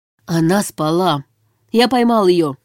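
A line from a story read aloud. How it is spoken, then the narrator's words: Growl again. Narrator (Russian): прорычал снова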